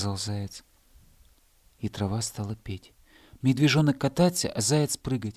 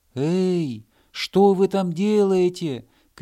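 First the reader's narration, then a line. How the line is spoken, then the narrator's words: Hedgehog shouting from afar. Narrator (Russian): крикнул с холма ежик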